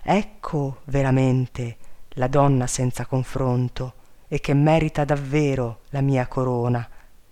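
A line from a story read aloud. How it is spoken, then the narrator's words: Admiring king's exclamation. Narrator (Italian): nel colmo dell'ammirazione, non poté frenarsi dall'esclamare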